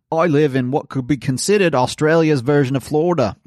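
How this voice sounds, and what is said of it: Bad put-on Australian accent. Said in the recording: “Oh, I'm going to try the accent. ... You can't do Australian accent. ... That is hideous. Please stop.”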